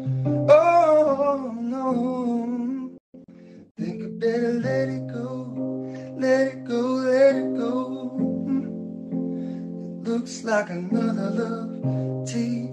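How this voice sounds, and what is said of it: Hoarse, raspy singing voice. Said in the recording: “I'm a little hoarse today ... a good raspy voice”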